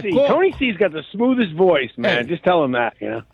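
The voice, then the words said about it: Noticeable regional accent. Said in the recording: “Got a good accent there”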